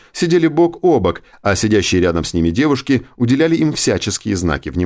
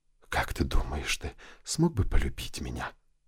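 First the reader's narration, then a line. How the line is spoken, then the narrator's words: Lustful whisper. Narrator (Russian): похотливо прошептала она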